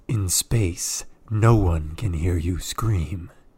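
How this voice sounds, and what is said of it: Dramatic movie-trailer voice. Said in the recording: “in your most dramatic voice ... That was very good ... your good voice”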